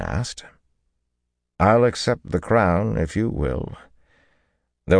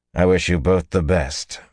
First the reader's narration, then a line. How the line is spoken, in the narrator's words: Rand said curtly